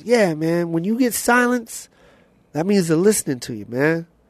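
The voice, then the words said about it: Imitates another person's voice. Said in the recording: “I'm gonna try and do his voice, but it's hard ... I hope this is a good Joe Torre impersonation.”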